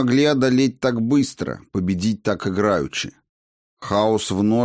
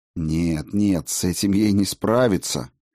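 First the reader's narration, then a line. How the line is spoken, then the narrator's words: Growled. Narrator (Russian): Сильвия зарычала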